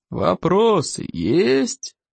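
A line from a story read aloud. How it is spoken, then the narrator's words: Growling. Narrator (Russian): рыкнул плевака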